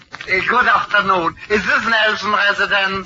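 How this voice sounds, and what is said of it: Strong foreign accent. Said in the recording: “What an accent.”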